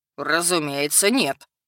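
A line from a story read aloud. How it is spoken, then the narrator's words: Snorting. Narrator (Russian): фыркнул ректор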